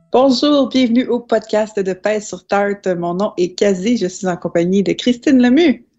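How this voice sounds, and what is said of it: Hoarse, partly lost voice. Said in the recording (French): “ma voix est un peu différente aujourd'hui, c'est que j'ai perdu la voix cette semaine”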